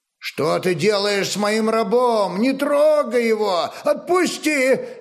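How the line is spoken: Wailing in foreign tongue. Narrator (Russian): завопил один из нурман на своем языке

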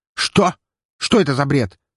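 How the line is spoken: Barking count. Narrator (Russian): рявкнул сидящий рядом с Лазаревым граф

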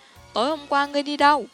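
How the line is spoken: Angry shout. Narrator (Vietnamese): tức giận quát

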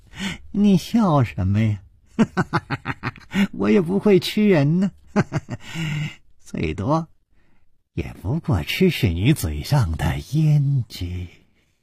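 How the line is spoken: Cheerful, grinning. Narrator (Chinese): 脸上更是没有丝毫的悲戚的神色，反而笑嘻嘻地说

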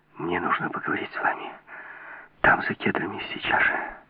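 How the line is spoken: Breathless excited whisper. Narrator (Russian): прошептала, задыхаясь от волнения

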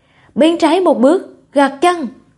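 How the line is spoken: Old man, loud. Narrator (Vietnamese): Lão đạo sĩ lớn tiếng nói

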